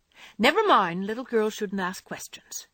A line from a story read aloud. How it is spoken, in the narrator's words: returned Joe sharply